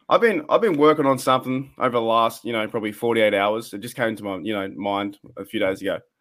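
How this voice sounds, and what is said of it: Australian accent. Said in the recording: “The Australian accent gets in the way.”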